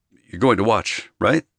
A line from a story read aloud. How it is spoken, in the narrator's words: I asked anxiously